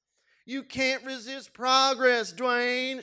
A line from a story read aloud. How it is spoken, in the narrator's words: she shouted